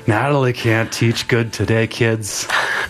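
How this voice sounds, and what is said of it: Slurred, drunk-sounding speech. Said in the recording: “He's going to slur for you all day. ... That's my impression of you.”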